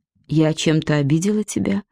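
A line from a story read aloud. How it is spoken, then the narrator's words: Plain question. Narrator (Russian): спросила Вера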